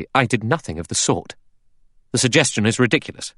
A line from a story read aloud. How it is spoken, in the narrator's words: Armstrong said sharply